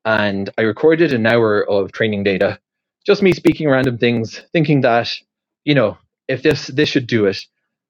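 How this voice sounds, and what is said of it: Irish accent. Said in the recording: “I'm from Ireland originally. I have an Irish accent.”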